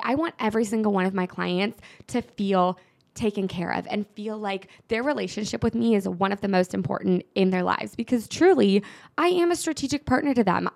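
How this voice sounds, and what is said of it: Very fast, rushed speech. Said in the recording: “I'm talking so fast. I literally need to take a breath because this is just like all flowing out right now.”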